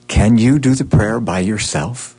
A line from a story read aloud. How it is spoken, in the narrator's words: he whispered to Brooke